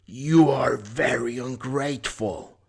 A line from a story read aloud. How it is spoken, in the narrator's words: said the beast in a terrible voice